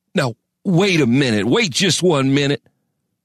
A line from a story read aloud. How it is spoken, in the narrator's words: sputtered